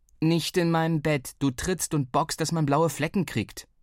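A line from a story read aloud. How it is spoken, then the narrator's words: Plain. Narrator (German): sagte ich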